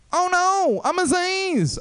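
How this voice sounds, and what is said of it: Imitates another person's voice. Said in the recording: “my impression of Aziz Ansari waking up from a coma and realizing he's Aziz Ansari.”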